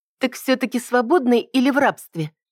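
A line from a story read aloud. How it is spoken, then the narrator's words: Snide query. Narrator (Russian): ехидно уточнила я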